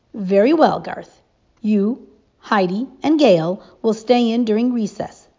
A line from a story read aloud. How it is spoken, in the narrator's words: the teacher said firmly